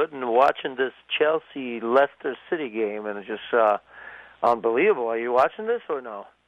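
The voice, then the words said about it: Hoarse, slightly lost voice. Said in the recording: “Losing my voice a little bit. I was sick”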